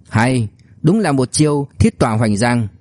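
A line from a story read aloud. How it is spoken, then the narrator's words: Sighing. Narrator (Vietnamese): Liễu Kinh Vũ thở dài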